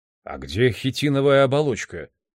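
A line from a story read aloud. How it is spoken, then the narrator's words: Plain. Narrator (Russian): спросил он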